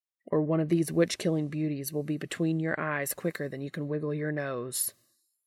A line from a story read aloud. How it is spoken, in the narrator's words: he growls